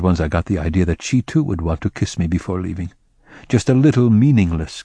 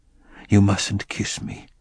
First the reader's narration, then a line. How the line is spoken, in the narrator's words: I whispered